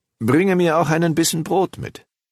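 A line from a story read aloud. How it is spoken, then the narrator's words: Calling after someone. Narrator (German): rief er ihr nach und sprach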